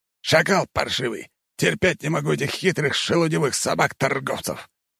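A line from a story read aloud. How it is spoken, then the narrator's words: Hiss. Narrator (Russian): прошипел Ибрагим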